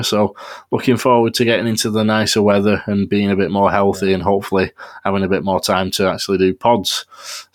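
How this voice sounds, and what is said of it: Congested, bunged-up voice. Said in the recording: “tell by my voice, I'm still a bit being bunged up by having all kinds of illnesses”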